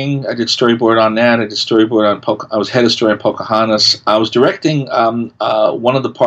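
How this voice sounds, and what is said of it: Usual voice. Nothing is said of it.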